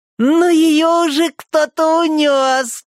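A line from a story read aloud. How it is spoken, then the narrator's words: Loud singing over others. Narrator (Russian): громко пел Хилли, перекрикивая Гарриет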